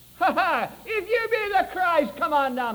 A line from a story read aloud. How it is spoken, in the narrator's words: those chief priests that were out there howling